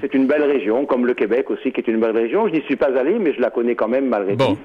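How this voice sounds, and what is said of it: Marseille Provençal French accent. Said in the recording (French): “Et vous en avez l'accent du reste. ... nous sommes Marseillais, provençaux.”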